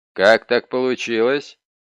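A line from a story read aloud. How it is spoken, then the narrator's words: Demanding question. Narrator (Russian): требовательным тоном спросил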